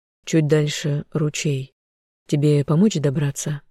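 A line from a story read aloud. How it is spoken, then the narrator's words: Plain. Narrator (Russian): спросил Даррен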